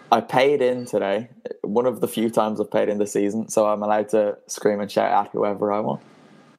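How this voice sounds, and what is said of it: Strained voice, not doing well. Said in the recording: “You can probably hear my voice isn't doing too well ... Why is your voice not doing very well ... What have you been doing with your throat? ... I was screaming and shouting at one of them today.”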